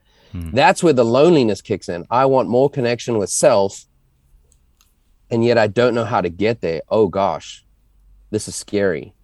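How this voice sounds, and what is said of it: South African accent. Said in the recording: “judging your accent, that you're not living, in your home country ... trying to be South African in this country, they make fun of my words”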